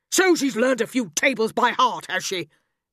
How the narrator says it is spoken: Miss Trunchbull barked

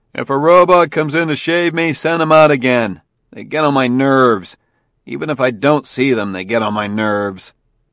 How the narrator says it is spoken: He shouted

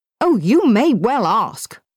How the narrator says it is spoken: snapped Claire back

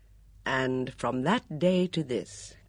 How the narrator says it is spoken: Craddock said slowly

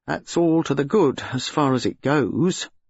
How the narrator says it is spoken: Slack explained gloomily

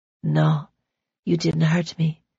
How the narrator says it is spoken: she said huskily

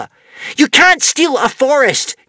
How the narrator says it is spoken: yelled Wish

